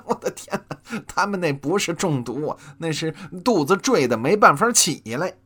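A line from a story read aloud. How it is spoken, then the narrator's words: Hearty laughter. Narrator (Chinese): 济公哈哈大笑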